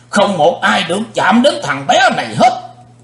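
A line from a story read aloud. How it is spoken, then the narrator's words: Thunderous shout. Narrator (Vietnamese): Sư diện quái ma hét tạo sấm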